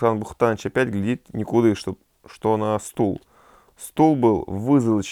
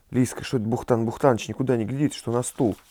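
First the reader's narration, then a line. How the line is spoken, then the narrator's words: Whispered. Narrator (Russian): Царь шепнул Лиске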